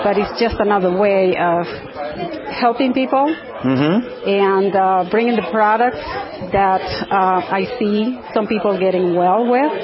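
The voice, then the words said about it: Nicaraguan accent. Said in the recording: “Where's that accent from? ... I was born and raised in Nicaragua.”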